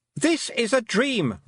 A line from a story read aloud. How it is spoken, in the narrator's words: Roland shouted, but it was louder now because he was catching her up